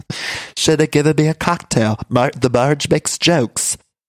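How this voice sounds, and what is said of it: Poor impression, vaguely British-sounding. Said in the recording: “I do a terrible Marge impression ... I feel like my Marge is a little bit of like British Trump”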